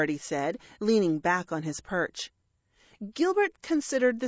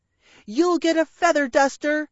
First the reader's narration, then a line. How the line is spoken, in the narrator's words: she shouted at him